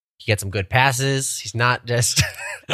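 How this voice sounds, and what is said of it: Imitates another person's voice. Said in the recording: “This is me trying to do my Coach Derek impression ... I've already lost it.”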